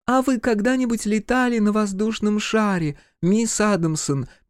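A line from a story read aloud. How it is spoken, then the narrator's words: Squeaky doll voice. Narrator (Russian): пищала кукла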